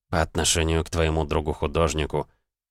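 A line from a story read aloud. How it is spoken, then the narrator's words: Quiet. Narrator (Russian): тихо сказала Марлоу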